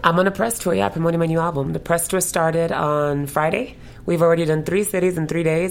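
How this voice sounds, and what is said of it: Voice partly gone, worn out. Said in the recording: “my voice is a little gone right now.”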